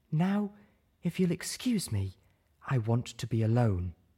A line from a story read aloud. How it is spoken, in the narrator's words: she said gravely